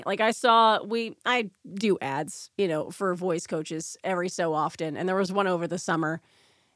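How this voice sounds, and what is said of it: Naturally raspy voice. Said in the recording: “somebody who sounds like they're losing their voice ... that's just my voice ... I'm just like a naturally raspy person”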